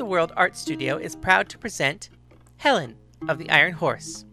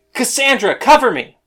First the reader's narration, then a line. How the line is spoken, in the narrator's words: Paris yelled